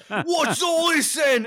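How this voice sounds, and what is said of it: Slightly muffled Cockney working-class accent. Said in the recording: “they have like a slightly muffled Cockney working class accent.”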